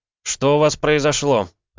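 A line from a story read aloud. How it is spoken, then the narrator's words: Barked. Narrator (Russian): рявкнул я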